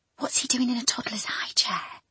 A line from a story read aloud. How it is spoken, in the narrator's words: she whispered